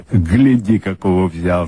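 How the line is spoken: Cheerful call. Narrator (Russian): бодро заговорил коломиец

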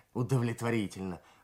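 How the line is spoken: Dry snort. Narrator (Russian): хмыкнул Кравчук

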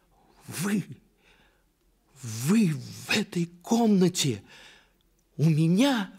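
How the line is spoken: Frightened cry. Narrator (Russian): вскрикнула княжна, узнав вошедшего

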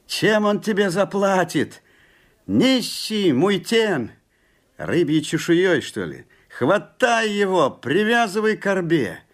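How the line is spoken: Group shouting. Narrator (Russian): Закричали ему тены

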